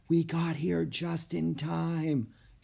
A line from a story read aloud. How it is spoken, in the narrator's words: Annie whispered